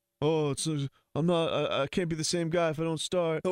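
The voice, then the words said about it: Impression of Philly Cheese's voice. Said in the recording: “Whose accent is that? ... It's Philly Cheese.”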